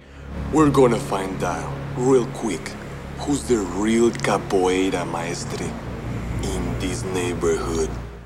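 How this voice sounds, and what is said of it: Intense put-on Brazilian accent. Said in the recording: “Silverio's accent is just so intense ... I don't think any of the actors who were playing Brazilians were Brazilian”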